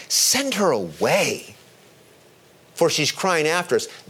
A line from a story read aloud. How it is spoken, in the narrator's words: his disciples came and begged him, saying